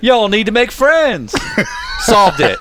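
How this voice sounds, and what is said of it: Determined Southern accent impression. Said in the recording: “he basically just says the most obvious thing, but with like a determined Southern accent.”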